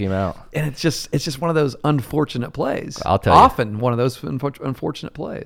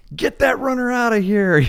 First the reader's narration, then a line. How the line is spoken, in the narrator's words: mom and dad from the stands yelling